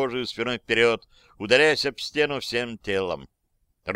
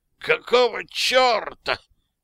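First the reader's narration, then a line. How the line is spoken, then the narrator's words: Breathless hiss. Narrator (Russian): прошипел Сноу, пытаясь вдохнуть хоть немного мгновенно ставшего густым и вязким воздуха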